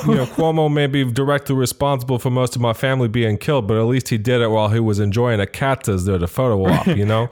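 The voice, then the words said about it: Exaggerated New York accent. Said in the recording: “Bad New York accent”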